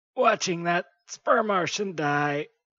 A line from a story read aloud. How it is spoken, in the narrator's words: sobbed the Asphyxian ambassador